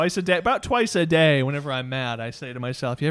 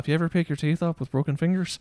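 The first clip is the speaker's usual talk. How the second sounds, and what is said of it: Good put-on Irish accent. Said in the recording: “that's a good Irish accent”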